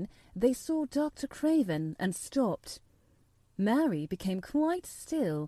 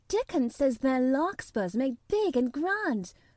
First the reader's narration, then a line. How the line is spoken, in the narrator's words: cried Mistress Mary